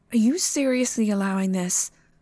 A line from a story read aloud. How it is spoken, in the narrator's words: Train sighed